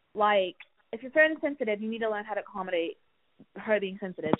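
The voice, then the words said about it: Put-on accent. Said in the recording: “this accent is really getting hard now.”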